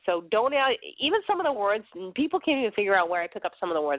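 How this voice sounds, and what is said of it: Thick Boston accent. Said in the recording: “I come from Boston ... my accent's really that thick. It's even thicker than some of my friends.”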